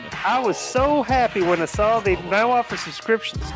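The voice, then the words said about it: Put-on Tennessee accent. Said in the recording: “go back to the Tennessee accent.”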